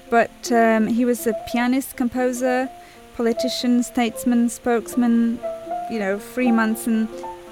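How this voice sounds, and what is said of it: Polish accent. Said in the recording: “he was Polish, as you can hear by my accent, probably”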